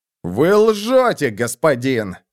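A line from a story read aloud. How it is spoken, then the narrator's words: Exclamation. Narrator (Russian): воскликнул Боссендорфер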